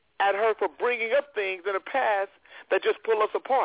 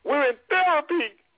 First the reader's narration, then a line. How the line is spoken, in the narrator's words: Rebe cried